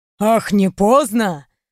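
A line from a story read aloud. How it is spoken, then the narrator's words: Angry hiss in ear. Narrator (Russian): злобно прошипел мне на ухо император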